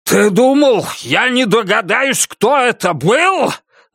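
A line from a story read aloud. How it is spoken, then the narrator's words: Grinning growl. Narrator (Russian): зарычал на Норриса ухмыляющийся Бастер Китон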